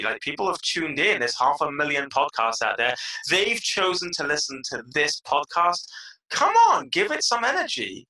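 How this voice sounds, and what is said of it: British accent. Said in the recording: “I love the accent. That's no Israeli accent ... if I had a British accent”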